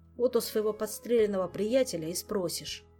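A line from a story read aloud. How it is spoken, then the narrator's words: Grim. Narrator (Russian): также мрачно ответил Шут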